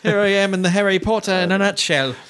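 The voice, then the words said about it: Poor put-on British accent. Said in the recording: “That's a terrible accent.”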